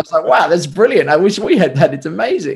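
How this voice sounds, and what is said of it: Excited voice. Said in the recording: “You can hear the excitement in my voice.”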